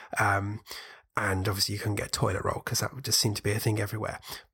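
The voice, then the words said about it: British accent. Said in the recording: “over here being the UK, for anyone who hasn't worked out what my accent is”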